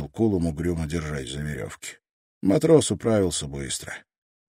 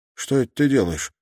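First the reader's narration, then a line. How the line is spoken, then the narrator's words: Plain. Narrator (Russian): спросил Кулум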